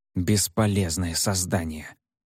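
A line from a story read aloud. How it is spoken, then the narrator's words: Angry, through teeth. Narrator (Russian): в сердцах процедил Фэн Юань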